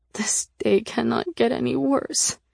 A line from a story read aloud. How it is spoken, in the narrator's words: I moaned